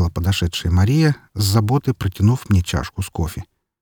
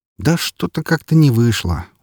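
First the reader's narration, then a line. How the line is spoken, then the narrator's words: Tired. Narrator (Russian): устало произнес я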